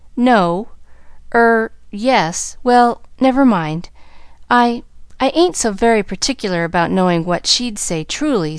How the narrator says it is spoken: stammered Nancy

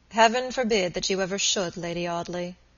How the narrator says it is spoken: Robert said gravely

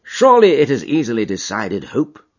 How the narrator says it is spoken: said the Premier

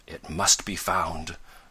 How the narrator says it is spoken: murmured the scientist

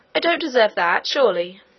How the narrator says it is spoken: cried Curdy, bursting into tears

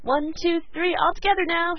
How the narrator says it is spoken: she cried

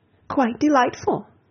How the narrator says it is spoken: cried Mrs

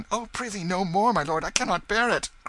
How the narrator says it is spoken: cried Tom

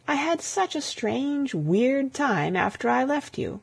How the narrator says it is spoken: she crooned softly

